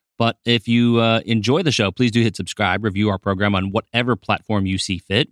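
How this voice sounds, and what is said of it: Slightly hoarse voice. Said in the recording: “I am a little bit hoarse right now because I just got off a red-eye flight”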